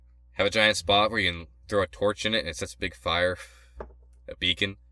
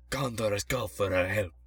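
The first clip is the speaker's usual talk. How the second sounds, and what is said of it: Put-on accent. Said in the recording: “Why was that an accent?”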